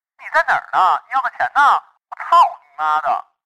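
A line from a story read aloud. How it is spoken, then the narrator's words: Roaring from inside. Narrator (Chinese): 她在里面吼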